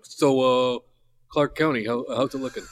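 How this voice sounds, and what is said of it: Imitates another person's voice. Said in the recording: “Is that a good impression of your uncle? ... Not quite.”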